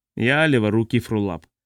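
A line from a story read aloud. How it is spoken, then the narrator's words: Muttered. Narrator (Russian): пробормотал Орн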